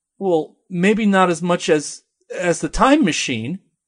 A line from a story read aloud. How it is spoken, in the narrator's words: stutters